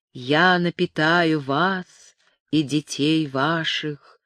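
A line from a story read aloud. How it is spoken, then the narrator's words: Gentle, comforting. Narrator (Russian): утешал их и ласково говорил с ними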